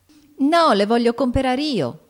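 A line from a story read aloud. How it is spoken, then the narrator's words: Shrieked. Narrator (Italian): strillò Amy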